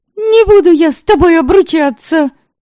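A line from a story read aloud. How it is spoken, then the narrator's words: Heated shout. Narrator (Russian): В запальчивости выкрикнула Заряла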